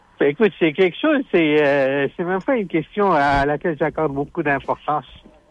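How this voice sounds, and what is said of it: Non-Québécois French accent. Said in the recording (French): “mon accent... pour sonner plus québécois”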